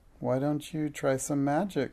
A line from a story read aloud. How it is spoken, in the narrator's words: suggested Minx timidly